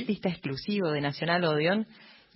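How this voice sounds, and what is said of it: Announcer-style voice. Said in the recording (Spanish): “con voz de locutor”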